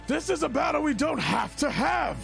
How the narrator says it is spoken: Tariel's just kind of gritting his teeth, and he's just going to shout out

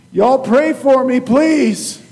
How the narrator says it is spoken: the little guy yelled out

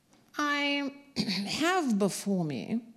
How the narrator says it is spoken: the coroner said in a reedy voice

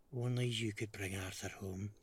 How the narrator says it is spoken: she whispers

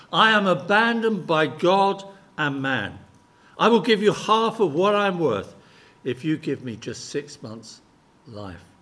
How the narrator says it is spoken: he cried out in desperation

